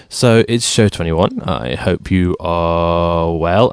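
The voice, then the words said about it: DJ-style radio announcer delivery. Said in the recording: “talking like a DJ”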